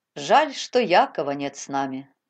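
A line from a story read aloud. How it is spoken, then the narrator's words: Sighing. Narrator (Russian): вздохнул Петр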